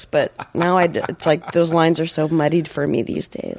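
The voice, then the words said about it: Nasal, congested voice. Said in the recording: “I don't want to have this nasal voice ... my voice is even more, you know, because I'm sick”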